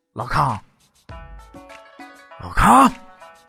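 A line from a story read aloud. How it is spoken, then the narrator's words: Soft, excited call. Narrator (Chinese): 陈友谅难掩激动的心情……轻声叫出了联络的暗号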